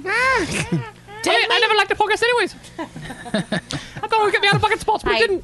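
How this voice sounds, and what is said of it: Rushed, very fast imitation of someone. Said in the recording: “It was, but it was too quick because you're all jacked up on sugar ... that's like fucking fast forward”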